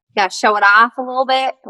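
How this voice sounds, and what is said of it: Southern accent. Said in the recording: “Why do I have a Southern accent?”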